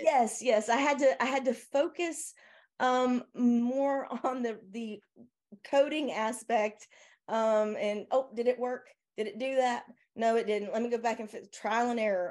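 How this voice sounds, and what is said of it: Southern American accent. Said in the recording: “I hope my southern accent isn't too much in this... If it gets too thick”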